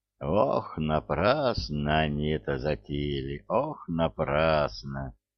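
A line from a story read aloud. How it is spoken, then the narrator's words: Repeating. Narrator (Russian): повторял он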